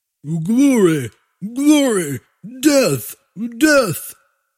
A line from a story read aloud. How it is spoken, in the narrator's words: the humans cried